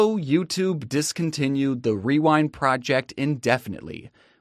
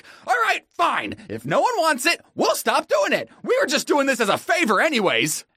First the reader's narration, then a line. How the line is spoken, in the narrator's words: snapped and was like